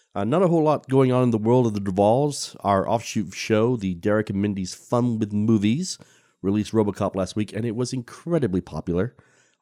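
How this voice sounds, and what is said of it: Congested voice from a cold. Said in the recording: “as you can probably hear in my voice, I am recovering from a rather nasty cold ... forgive me for any sniffles”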